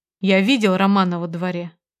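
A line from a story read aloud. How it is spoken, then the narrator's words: Calm. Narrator (Russian): произнес он так спокойно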